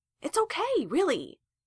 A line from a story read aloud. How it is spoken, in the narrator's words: Justin exclaimed